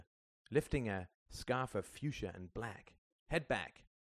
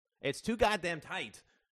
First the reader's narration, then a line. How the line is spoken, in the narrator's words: cried Justin